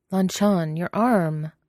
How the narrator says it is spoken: Wei Wuxian exclaims suddenly

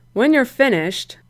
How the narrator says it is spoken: Brian said dryly

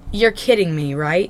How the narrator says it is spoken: Jason scoffs

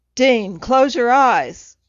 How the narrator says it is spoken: when it became screaming

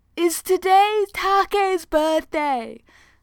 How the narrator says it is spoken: Hayato yells

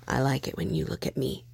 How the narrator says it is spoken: Ed whispered in his ear

